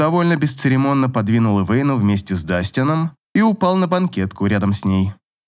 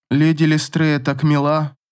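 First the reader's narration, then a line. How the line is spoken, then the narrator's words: Sleepy. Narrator (Russian): сонно проговорила Ив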